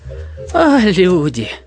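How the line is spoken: Sigh. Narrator (Russian): вздохнул Клоподав

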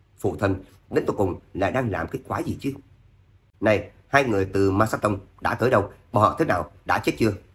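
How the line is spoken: Incredulous mutter. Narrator (Vietnamese): Tuyển Thế Vũ không thể tưởng tượng nổi, lẩm bẩm lên tiếng

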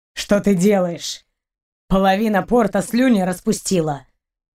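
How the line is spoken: Grumbled. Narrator (Russian): проворчал капитан

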